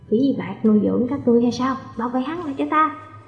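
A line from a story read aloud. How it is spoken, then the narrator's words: Cold. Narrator (Vietnamese): Hồ Thông lạnh lùng nói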